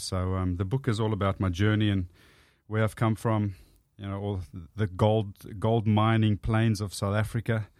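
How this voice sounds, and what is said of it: Thick South African accent. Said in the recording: “you got the South African accent. ... It's very thick, yeah.”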